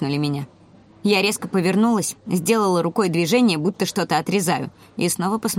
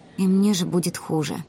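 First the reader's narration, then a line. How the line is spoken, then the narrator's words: Quiet. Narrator (Russian): тихо сказала Ари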